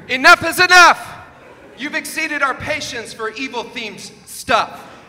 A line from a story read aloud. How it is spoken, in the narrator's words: Kevin Brown hollered